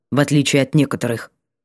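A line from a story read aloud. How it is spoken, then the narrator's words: Curt dry cut-off. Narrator (Russian): отрезал он сухо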